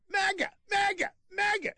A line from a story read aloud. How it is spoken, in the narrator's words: Burke yelled